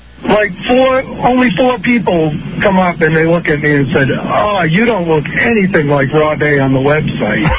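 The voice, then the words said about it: Strong Maine accent. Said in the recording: “that obvious Maine accent? ... he's got a pure one right there”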